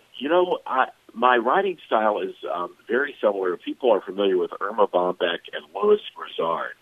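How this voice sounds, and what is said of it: Gravelly, hoarse voice. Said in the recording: “apologize for my voice. I am dealing with a bad cold, so my apologies if I sound gravelly this morning.”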